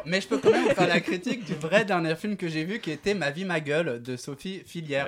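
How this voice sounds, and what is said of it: Noticeable unusual accent. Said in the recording (French): “un mec avec un accent chelou”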